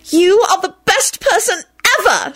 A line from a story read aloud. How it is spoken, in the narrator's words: she shrieked